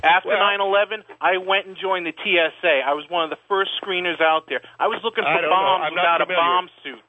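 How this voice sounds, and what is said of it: New York accent. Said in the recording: “You got a New York accent.”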